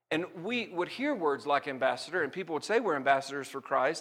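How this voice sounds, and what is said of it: Southern Alabama accent. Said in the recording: “I grew up in a small country church in Alabama. You can hear it in my accent”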